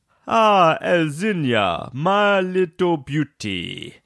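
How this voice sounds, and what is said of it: Polish-accented impression of great-granddad. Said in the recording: “I decided to do an impression of my great granddad ... My great granddad's Polish ... I didn't know you spoke Polish, Dad ... Accent just is the language.”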